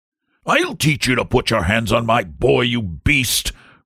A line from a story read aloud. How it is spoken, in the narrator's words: roared the saloonkeeper